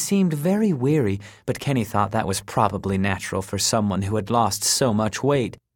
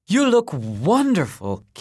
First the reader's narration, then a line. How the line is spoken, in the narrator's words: Kenny blurted